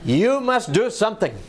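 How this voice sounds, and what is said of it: Imitated Dutch accent. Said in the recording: “that's her Dutch accent”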